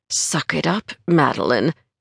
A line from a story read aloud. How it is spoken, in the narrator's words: gritted through her teeth